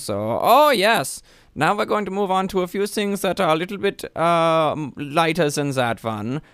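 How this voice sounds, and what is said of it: Put-on German accent. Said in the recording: “I really can't get out of this German accent right now”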